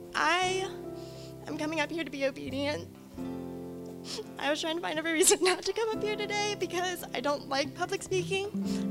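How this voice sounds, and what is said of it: Emotional, choked-up speaking voice. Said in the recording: “I always get emotional when I talk, sorry.”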